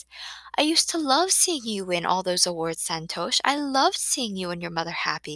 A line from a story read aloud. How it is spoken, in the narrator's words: she says softly